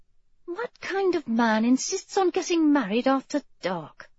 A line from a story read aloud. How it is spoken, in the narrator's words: she muttered